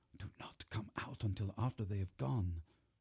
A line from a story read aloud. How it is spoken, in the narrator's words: I whispered to Miranda